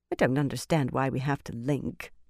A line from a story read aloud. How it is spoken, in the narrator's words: the Tyran Brown muttered